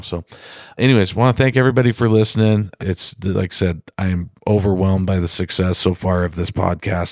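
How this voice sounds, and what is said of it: Sick, worn-out, slightly dopey voice. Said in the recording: “I sound a little funny today. It's because I'm been sick ... my voice is a little bit shot. ... I'm a little drugged up. So if I sound dopey”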